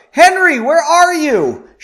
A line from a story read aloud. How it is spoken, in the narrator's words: She screamed